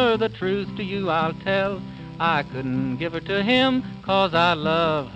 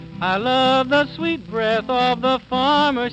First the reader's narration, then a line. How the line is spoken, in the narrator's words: she cried